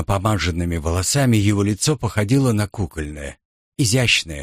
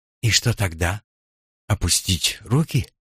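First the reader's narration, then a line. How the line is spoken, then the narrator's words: Sighing. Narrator (Russian): Симон вздохнул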